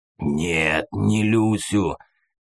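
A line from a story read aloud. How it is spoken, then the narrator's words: Rough hoarse rumble. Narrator (Russian): грубым хриплым голосом пророкотал мутант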